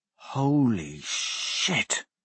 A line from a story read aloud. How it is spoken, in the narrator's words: Blaze breathed